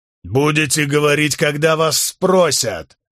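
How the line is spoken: Bark. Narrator (Russian): рявкнул Уорик

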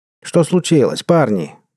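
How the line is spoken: Shouting. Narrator (Russian): прокричал Берроуз

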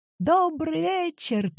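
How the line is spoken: Shouted. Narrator (Russian): крикнул фокусник

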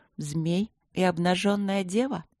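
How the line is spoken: Thoughtful reciting murmur. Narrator (Russian): пробормотала я задумчиво, как будто декламировала название старой поэмы

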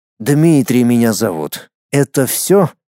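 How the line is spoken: Lazy. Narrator (Russian): лениво произнес он

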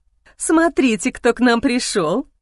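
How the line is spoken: Joyful nanny speaking. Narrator (Russian): радостно сказала няня

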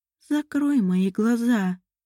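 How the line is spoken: Whispered in sepulchral voice. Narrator (Russian): прошептала Лорель загробным голосом

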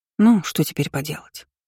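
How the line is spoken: Sighing. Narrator (Russian): вздохнула

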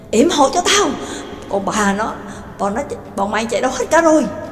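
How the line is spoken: Panicked shouting while running. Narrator (Vietnamese): Gonzan cuống cuồng sợ hãi, vừa chạy như bay vừa hét lớn

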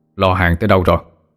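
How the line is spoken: Gruff male voice. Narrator (Vietnamese): giọng đàn ông ồm ồm

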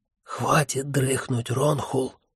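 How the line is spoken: Whisper. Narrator (Russian): прошептал он

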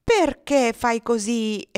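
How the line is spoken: Impatient exclamation. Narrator (Italian): esclamava Miss Ofelia perdendo la pazienza

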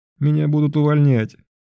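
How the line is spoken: Loud sobbing. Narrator (Russian): начала громко рыдать

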